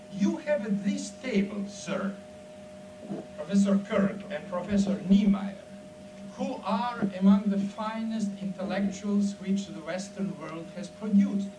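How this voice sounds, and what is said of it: Very thick foreign accent. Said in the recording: “I speak, as you see, also with a very thick foreign accent”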